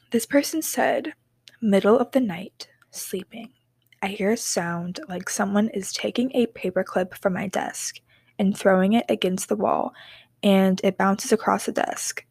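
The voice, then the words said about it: Spooky storytelling voice. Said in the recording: “let me get my spooky voice on”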